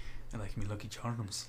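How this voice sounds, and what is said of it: Put-on Irish accent. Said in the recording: “With this Irish accent? Was it Irish?”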